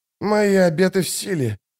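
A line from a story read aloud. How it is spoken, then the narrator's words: Hoarse rasp. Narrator (Russian): прохрипел солдат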